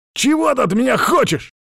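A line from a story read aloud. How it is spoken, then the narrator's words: Bark. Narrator (Russian): рявкнул я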